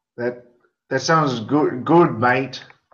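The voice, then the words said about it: Put-on Australian accent. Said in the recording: “answer half of your questions in an Australian accent? ... trying to do more Australian accents”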